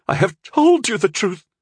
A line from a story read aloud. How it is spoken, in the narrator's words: she pleaded